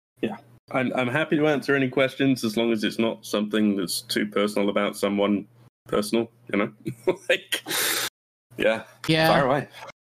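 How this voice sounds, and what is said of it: Slight accent. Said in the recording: “you have a slight accent”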